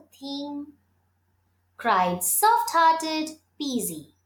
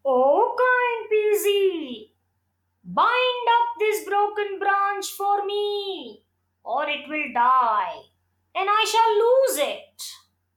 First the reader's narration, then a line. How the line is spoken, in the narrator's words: the people called out